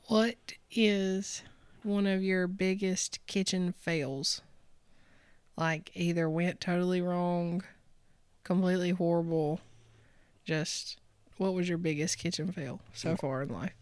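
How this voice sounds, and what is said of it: Hoarse, fading voice. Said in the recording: “my voice is going out.”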